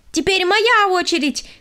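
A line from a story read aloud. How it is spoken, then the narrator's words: Shouted. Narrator (Russian): крикнула она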